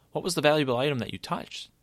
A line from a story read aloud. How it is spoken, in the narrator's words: Lance asked